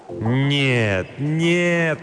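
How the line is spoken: Moaning. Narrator (Russian): простонал он

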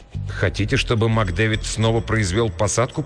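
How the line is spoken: Muttered. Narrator (Russian): пробормотал

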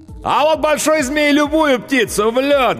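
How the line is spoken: Loudest shouting. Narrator (Russian): громче всех кричал ковбой

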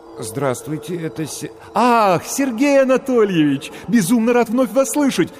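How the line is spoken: Joyful rapid chatter. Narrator (Russian): радостно затараторил голос

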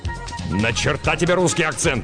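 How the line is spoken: Growl. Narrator (Russian): рыкнул на нее Варгас

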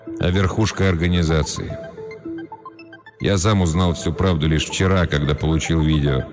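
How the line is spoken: Tired. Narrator (Russian): устало произнес Тео

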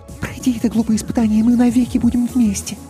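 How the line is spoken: Quick whisper. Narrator (Russian): быстро шепнула

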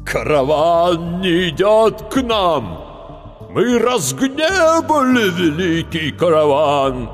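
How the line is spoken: Frightening voice. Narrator (Russian): заговорил страшным голосом старший

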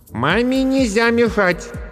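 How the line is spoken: Loud. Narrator (Russian): громко сказала Аня

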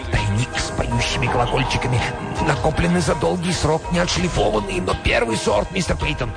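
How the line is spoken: Whisper. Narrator (Russian): Корнуэлл шептал

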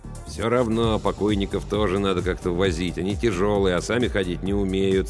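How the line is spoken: Grumpy muttering. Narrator (Russian): сварливо бормотал Йонс

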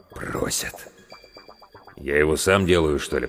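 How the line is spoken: Muttered. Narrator (Russian): пробормотал главврач

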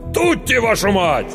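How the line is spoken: Commanding shout. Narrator (Russian): повелительно крикнул

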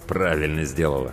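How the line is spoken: Through clenched teeth. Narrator (Russian): сквозь зубы процедил Тимур

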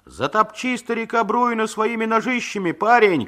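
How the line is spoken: Shouted. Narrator (Russian): крикнул другой

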